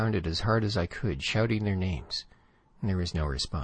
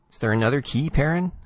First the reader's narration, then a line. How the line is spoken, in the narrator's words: I snapped